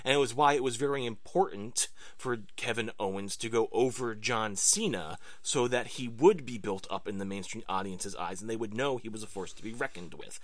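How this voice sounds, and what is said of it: Increasingly angry voice. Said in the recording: “As you can hear in my voice, I am becoming angry.”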